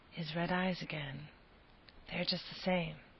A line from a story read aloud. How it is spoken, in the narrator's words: suddenly Lucy murmured, as if to herself